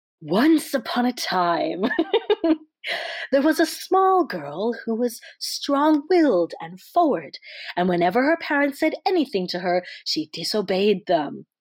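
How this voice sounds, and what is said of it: Storytelling fairy tale voice. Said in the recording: “let me get my fairy tale voice on.”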